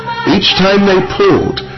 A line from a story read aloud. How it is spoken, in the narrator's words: Madhu Mangal called out